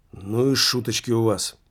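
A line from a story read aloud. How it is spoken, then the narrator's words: Muttered. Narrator (Russian): пробормотал еще один полицейский, коллега Вильямса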